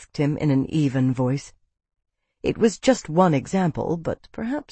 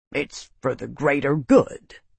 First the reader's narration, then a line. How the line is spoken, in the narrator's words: he grumbled